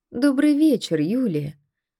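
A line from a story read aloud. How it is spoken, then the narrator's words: Calm, unconcerned. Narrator (Russian): Спокойно, как будто ничего не происходило, проговорил дядя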